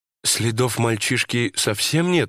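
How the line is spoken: Uncertain wife asking. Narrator (Russian): неуверенно спросила жена

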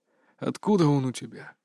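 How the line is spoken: Whispering. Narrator (Russian): прошептал он

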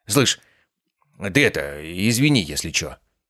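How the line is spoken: Mumbled. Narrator (Russian): пробормотал он

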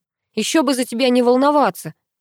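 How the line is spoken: Grumbled. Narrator (Russian): проворчал Паша

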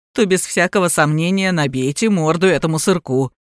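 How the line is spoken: Snorting, customer. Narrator (Russian): хмыкнул покупатель

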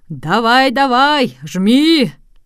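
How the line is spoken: Crowd shouting at full strength. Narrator (Russian): пассажиры и туристы кричали ему, что было мочи

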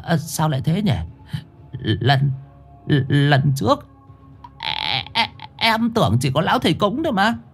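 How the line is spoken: Dazed stammering. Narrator (Vietnamese): Chùn ngơ mặt chó ra rồi lắp bắp

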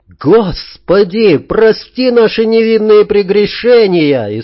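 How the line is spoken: Frantic scream, ecstatic and terrified. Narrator (Russian): истошно заорал кто-то с восторгом и ужасом

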